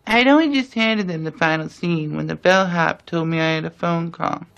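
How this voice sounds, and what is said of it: Spot-on Truman Capote impression. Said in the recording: “Impersonation of Truman Capote ... His particular vocal quality and mannerisms are just like Capote's ... The accent is dead on perfect ... the accent's totally integrated”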